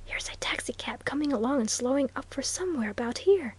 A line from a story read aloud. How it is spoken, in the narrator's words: he whispered